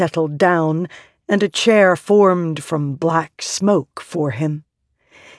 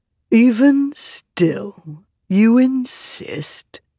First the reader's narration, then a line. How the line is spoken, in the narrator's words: Taravangian asked, his tone lightly amused